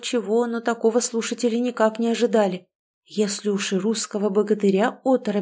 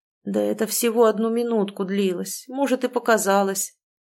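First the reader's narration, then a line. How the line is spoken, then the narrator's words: Mumbled. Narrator (Russian): промямлил наконец он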